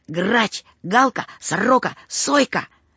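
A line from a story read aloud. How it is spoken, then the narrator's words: Pitying whisper. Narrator (Russian): Владику Гусеву стало жалко Петьку, и он зашептал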